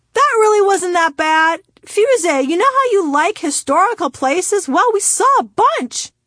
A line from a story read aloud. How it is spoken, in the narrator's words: shouted from 4 rows ahead of me